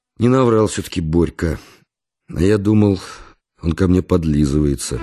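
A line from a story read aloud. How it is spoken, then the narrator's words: Sighing. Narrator (Russian): вздохнул и сказал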